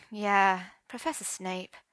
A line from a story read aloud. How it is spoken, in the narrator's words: sighed Arthur